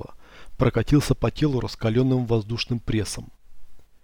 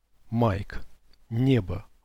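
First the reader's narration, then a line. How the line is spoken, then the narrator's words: Strained. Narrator (Russian): выдавил я из себя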